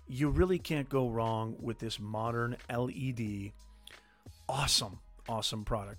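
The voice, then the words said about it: Hoarse, strained voice. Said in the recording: “I'm starting to lose my voice”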